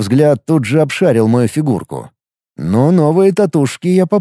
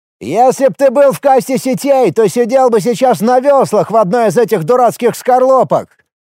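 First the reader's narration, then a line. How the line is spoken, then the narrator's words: Triumphant shout. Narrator (Russian): С торжествующим видом, будто подловил меня на лжи или нестыковках, крикнул средненький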